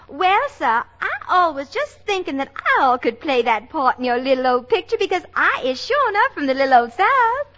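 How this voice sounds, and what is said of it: Put-on Southern US accent. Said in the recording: “a girl with a southern accent”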